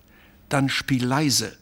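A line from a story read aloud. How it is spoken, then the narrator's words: Plain. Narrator (German): sagte Jutta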